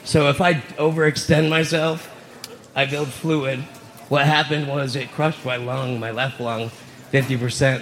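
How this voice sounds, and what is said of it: Out of breath. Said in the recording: “I'm getting out of breath right now”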